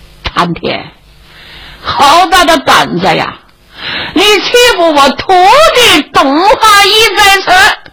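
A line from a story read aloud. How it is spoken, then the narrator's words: Loud distant shouting. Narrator (Chinese): 树林外边有人高声喊嚷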